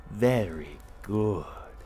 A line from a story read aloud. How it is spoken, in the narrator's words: she cooed